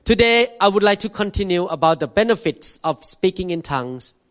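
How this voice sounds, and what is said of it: Speaks with a noticeable accent. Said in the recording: “Thank God for my accent. Because when you listen to my accent in the car, you cannot fall asleep.”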